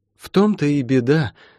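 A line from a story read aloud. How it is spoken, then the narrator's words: Sighing. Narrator (Russian): вздохнула Метифа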